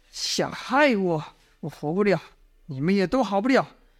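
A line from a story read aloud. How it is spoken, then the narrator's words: Angry. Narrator (Chinese): 殷万青……怒道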